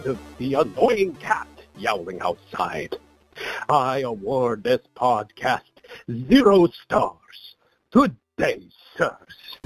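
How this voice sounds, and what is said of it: Vampire Count character voice. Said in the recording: “That was the Count.”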